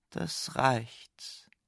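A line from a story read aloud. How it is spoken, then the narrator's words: Quiet croak. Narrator (German): quakte Max leise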